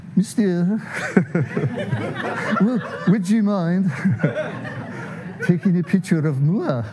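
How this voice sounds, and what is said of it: Put-on sweet French accent. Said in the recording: “she's got this sweet little French accent”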